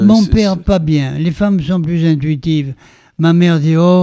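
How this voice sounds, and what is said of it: Usual voice. Nothing is said of it.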